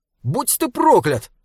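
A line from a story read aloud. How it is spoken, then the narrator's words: Shouted curse. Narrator (Russian): закричал он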